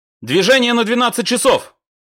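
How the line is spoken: Barked. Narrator (Russian): рявкнул Микрюков

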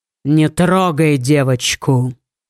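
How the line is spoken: Threatening tone. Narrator (Russian): сказал он угрожающим тоном

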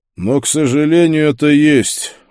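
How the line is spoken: Tired. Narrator (Russian): устало сказал Пауль

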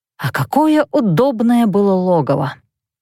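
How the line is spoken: Mumbled into ear. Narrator (Russian): бормотали мне в ухо

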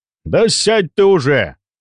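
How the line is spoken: Barking older man. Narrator (Russian): гаркнул немолодой мужчина

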